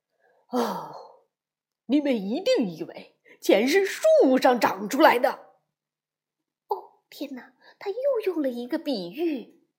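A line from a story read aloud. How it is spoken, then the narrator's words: Roaring father bear. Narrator (Chinese): 熊爸爸接着吼道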